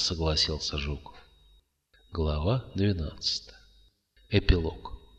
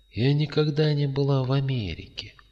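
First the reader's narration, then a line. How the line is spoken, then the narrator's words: Old woman sighing. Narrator (Russian): вздохнула старуха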